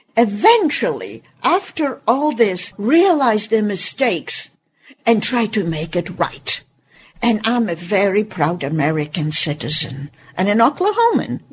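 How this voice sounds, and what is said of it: Speaks with a noticeable accent. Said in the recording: “This accent, don't let it fool you.”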